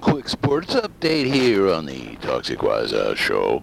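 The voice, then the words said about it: Classic radio announcer voice. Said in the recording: “my radio voice when I want to be officially like a radio guy ... when I want to sound like that proverbial quintessential radio personality”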